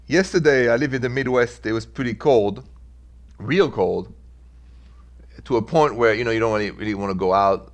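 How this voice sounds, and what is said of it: French-accented English. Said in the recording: “in French, where I'm from, I know if you've listened to the show, you've had to bear with my French accent. Always there.”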